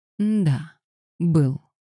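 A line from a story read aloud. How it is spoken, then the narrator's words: Plain. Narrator (Russian): ответила Феба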